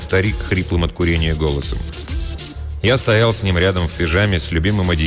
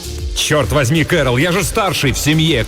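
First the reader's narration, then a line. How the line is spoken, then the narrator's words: Desperate shout. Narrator (Russian): крикнул я в отчаянии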